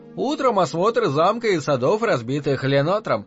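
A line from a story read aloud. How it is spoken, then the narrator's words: Plain. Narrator (Russian): ответил англичанин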